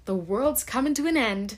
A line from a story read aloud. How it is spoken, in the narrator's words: gasped Martha